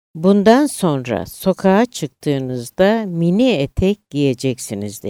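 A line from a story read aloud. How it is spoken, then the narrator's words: Plain. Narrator (Turkish): dedi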